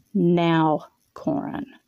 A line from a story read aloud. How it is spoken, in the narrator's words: she said, her voice firm